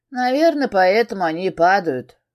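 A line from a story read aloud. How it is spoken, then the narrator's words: Snort. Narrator (Russian): хмыкнул друг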